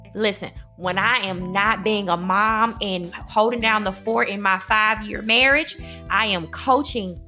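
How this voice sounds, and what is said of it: Southern accent. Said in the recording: “My southern accent”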